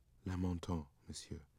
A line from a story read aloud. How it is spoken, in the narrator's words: Richard whispered